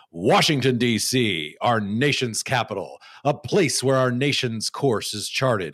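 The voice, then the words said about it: Announcer-style TV voice. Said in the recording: “in my best TV voice”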